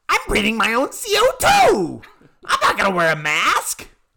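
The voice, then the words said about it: Cartoon character voice impression. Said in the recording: “my own Figment impression”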